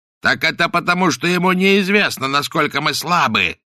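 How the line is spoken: Shouting. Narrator (Russian): закричал Каузак

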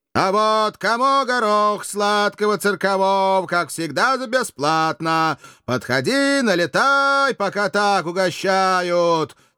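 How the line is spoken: Roaring in unison. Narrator (Russian): Дружно взревели еремеевские стрельцы

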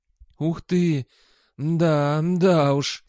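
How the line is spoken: Hoarse muttering. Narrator (Russian): сипло бормотал Сол

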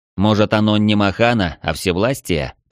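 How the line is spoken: Muttering. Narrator (Russian): пробурчал я

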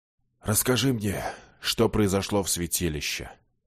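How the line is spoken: Hoarse request. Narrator (Russian): хрипло попросил он

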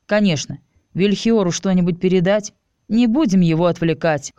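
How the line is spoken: Wry snort. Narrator (Russian): хмыкнул я

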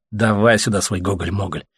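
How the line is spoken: Grumbling. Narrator (Russian): пробурчал Леха

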